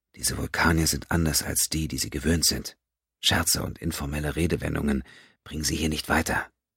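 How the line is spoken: Whispering. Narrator (German): Mbenga flüsterte

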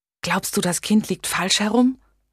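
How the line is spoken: Whispering. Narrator (German): flüsterte

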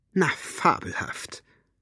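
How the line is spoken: Murmuring. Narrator (German): murmelte Elinor

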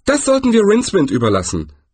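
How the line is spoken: Cheerful. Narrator (German): sagte Zweiblum fröhlich

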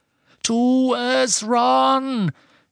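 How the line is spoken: Shouted. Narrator (German): schrie Harry

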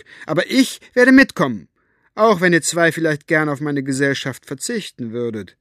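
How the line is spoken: Called back. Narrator (German): rief Elinor zurück

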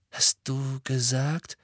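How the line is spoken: Murmured. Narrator (German): murmelte Ron

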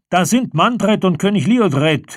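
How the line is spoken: Called out. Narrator (German): rief Noramon den Schützen in seiner Nähe zu

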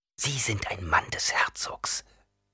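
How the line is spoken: Hissed. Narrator (German): zischte Jessica

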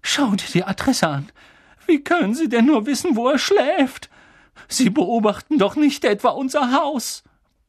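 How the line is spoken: Trembling voice. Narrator (German): sagte Tante Petunia mit zitternder Stimme

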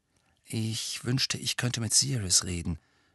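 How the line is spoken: Murmuring. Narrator (German): murmelte er

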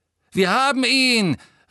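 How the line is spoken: Shouting. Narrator (German): rief der Harry am nächsten stehende Todesser

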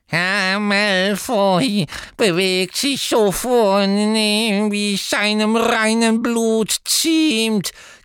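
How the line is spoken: Croaked promptly. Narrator (German): krächzte Creature sofort

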